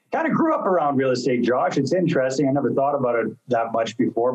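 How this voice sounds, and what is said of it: Canadian accent. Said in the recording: “Canadian, as you'll probably pick up from the accent after a little while if I say out and about a few times”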